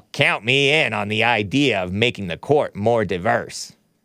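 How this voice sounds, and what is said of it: Imitates another person's voice. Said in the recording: “That's my impression of Senator Lindsey Graham. Maybe I can improve it a little bit, but he talks like this.”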